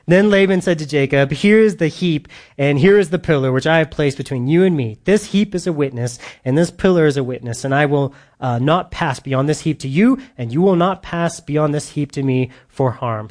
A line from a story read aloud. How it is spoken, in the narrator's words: he says